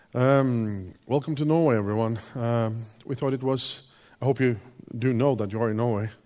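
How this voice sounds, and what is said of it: Slightly hoarse voice. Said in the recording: “my slight hoarse voice”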